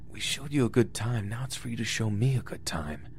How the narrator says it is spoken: He whispered

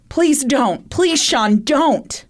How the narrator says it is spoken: In the background of the 911 call, Shayna's mother, Sandra Bentler, could be heard screaming and saying

